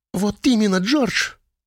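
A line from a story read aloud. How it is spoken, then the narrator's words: Exclamation. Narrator (Russian): воскликнула она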